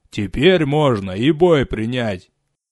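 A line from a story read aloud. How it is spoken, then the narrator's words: Deep booming voice. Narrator (Russian): прогудел Рикар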